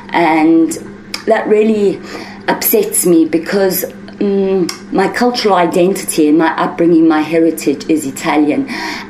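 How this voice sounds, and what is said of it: South African accent. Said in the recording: “why do you speak with a South African accent? ... I have somehow got an accent”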